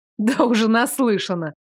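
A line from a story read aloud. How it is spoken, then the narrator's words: Laughing. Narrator (Russian): рассмеялась Хашет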